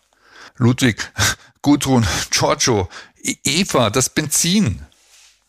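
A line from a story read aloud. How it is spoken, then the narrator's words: Excited stammering. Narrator (German): stammelte Bernhard aufgeregt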